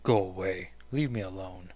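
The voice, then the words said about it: Deep character voice. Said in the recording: “Why did I give her such a deep voice?”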